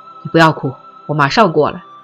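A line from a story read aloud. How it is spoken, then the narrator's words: Hoarse low growl. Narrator (Chinese): 他哑声的低吼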